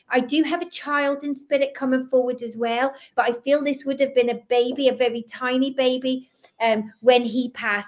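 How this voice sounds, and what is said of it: Fast speech, slight Scottish accent. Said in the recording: “I know I talk quite fast in this slightly Scottish accent.”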